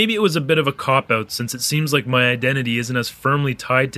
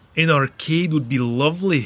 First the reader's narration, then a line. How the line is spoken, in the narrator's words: said